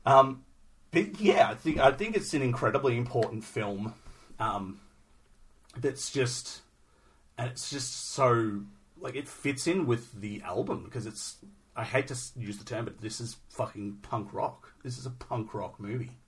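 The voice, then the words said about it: Strained, hoarse voice. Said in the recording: “I've been talking a lot. I'm losing my voice”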